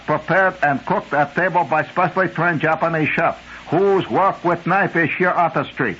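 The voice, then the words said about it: Bad put-on Japanese accent. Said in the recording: “do in Japanese accent. That's terrible.”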